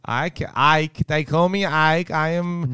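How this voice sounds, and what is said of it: Put-on Swedish accent. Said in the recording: “I got pretty good accents ... sexy accents ... hot Swedish boyfriend”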